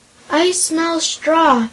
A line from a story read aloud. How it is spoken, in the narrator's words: cried a hoarse, harsh voice, with more growls and snarls